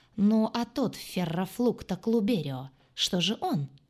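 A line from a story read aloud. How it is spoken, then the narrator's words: Sudden exclamation. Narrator (Russian): воскликнул он вдруг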